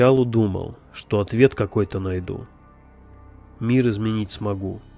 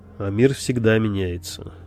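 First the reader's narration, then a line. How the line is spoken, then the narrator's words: Snorting. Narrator (Russian): хмыкнул собеседник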